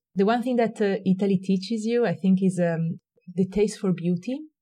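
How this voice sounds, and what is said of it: Italian accent. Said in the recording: “your Italian accent brings a little charm”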